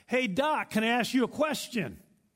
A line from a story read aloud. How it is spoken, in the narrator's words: the mechanic yelled across the shop